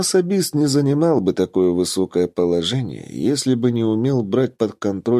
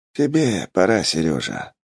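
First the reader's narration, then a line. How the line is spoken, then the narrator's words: Sighing. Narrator (Russian): вздохнул Губер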